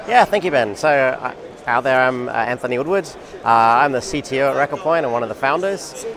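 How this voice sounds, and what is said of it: Australian accent. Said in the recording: “Originally from Australia, you can hear from my accent ... everybody loves the accent”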